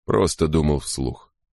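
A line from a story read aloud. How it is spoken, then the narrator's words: Muttering. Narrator (Russian): пробормотал Крози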